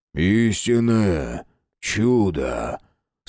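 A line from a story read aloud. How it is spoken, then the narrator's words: Strangely pious voice. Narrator (Russian): Странно набожным голосом произнес Оркус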